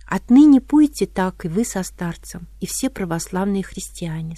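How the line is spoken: Plain. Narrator (Russian): сказал гость

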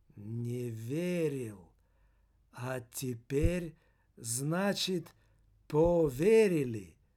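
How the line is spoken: Calm, cynical, contemptuous question. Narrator (Russian): очень спокойно, но продолжая по-прежнему цинично и презрительно усмехаться, осведомилась она

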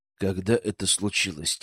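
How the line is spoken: Quiet question. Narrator (Russian): тихо спросил я

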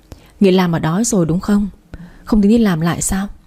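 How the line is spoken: Sighing question. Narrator (Vietnamese): Châu cô ấy thở dài rồi hỏi

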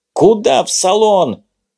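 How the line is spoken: Driver yelling irritably. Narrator (Russian): раздраженно заорал на него водитель

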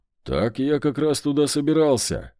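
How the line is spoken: Exclaiming. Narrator (Russian): воскликнул я

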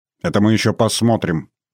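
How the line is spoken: Grumbling. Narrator (Russian): проворчал я

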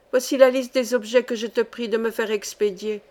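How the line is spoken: Plain. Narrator (French): dit-elle

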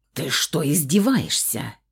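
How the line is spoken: Angry growl. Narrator (Russian): прорычал Фауст, гневно глядя на меня

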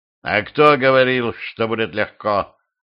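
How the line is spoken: Growl. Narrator (Russian): рыкнул русский

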